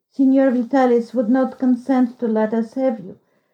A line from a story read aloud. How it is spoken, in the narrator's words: said Mrs